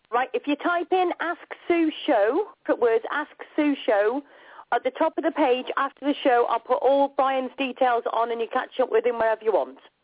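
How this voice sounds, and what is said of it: Speaker's own distinctive accent. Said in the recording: “I love your accent”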